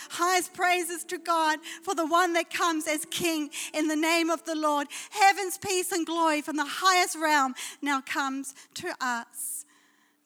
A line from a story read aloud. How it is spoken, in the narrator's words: They shouted over and over